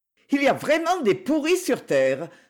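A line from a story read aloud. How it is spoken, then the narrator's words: Hypocritical exclamation. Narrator (French): s'exclama-t-elle hypocritement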